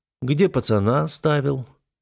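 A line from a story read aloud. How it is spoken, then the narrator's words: Lazy question. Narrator (Russian): лениво спросил я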